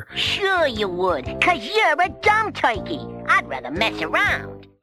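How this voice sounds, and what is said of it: Ratty Brooklyn cartoon voice. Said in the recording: “Coily is also voiced by Frank Welker. ... for Coily, he's doing a ratty Brooklyn accent.”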